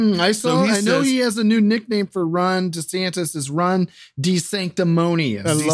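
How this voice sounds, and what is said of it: Usual voice. Nothing is said of it.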